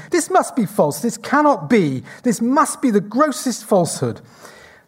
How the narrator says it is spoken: repeatedly exclaiming

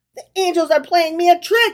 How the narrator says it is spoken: he cried

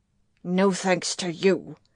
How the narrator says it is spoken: he growled

